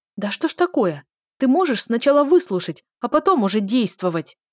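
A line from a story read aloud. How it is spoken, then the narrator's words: Yelled angrily. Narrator (Russian): Заорала я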